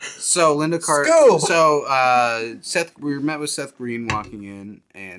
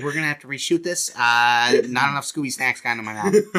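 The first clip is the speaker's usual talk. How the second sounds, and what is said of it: Imitates another person's voice. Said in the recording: “your Quentin Tarantino impression is basically ... just your David Lynch impression. ... Quentin Tarantino impression is my impression of David Lynch.”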